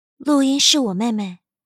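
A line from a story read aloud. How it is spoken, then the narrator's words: Calm, composed voice. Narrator (Chinese): 陆眠已经收拾好心情，声音平静道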